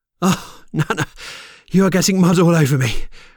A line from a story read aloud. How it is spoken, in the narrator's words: Loga laughed, relieved that she was safe